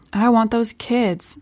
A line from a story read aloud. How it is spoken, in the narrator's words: said Wailing quietly